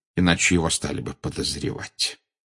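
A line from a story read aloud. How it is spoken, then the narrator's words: Quiet. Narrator (Russian): негромко сказал Дамблдор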